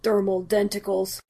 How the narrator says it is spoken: Steve muttered

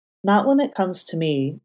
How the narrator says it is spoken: Matt said calmly

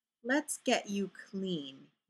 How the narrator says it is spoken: he said, his voice a soft rumble

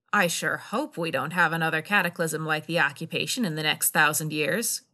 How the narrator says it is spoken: Kira said dryly

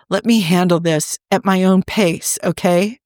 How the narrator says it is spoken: Rodney shivered and took a deep breath, threatening somewhat shakily

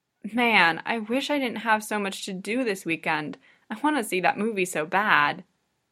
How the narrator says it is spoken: Hinata groans

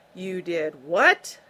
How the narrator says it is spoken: Roy Tarber bellowed, in furious disbelief

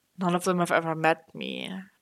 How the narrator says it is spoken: Bucky muttered, and their voice was shy and worried now

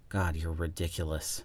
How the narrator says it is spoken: Stiles groaned

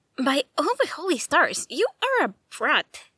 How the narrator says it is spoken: Rave snaps

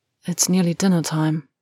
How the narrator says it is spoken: Harry whispered

